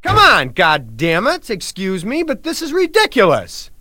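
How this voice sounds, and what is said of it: Angry yelling. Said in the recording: “I blew up... I'm sorry for yelling”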